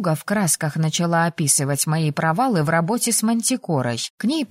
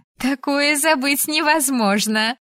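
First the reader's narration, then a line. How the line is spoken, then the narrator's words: Laughing. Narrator (Russian): рассмеялась Элайза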